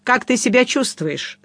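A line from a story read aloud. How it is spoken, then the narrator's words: Plain. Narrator (Russian): спросил я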